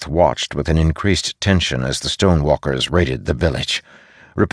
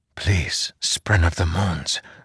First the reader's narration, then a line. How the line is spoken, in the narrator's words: Zeth whispered